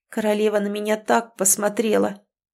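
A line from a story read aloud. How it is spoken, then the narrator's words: Hoarse, strained throat. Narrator (Russian): Просипела, надорвав яростным криком горло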